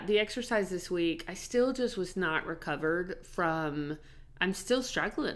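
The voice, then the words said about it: Unwell-sounding voice. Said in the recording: “you can hear it in my voice... I've still got allergies”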